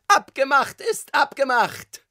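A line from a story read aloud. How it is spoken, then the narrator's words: Familiar tenor voice shouting. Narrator (German): schrie eine wohlbekannte Stimme, Tonlage Tenor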